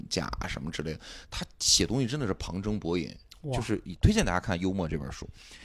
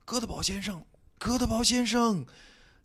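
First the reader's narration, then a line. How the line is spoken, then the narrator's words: Piercing shouts through fog. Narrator (Chinese): 他们的呼喊声穿透了迷雾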